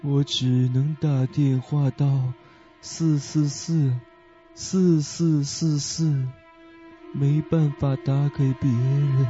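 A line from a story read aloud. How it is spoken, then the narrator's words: Low, deep. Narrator (Chinese): 那个声音又是低沉的说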